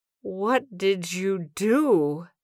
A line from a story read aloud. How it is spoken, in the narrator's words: slurred, having difficulty focusing her eyes